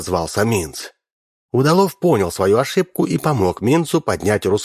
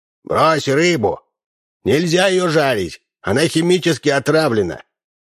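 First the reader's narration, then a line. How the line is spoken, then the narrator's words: Shouted. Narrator (Russian): он крикнул Минцу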